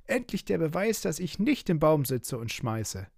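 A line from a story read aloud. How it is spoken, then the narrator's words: Calling out. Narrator (German): rief Piggledy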